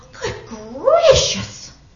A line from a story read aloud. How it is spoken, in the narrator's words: gasped Maisie